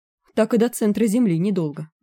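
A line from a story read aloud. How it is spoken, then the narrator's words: Wry snort. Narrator (Russian): хмыкнул Лесь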